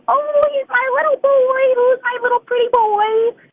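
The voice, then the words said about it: Baby voice. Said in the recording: “I talk to my ducks in a baby voice”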